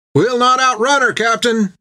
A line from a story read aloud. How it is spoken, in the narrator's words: cried Topper from the helm